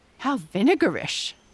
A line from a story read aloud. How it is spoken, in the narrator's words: said Amy